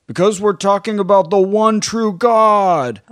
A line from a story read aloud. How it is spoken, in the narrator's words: One guy yells